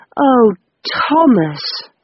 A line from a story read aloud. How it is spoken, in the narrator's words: moaned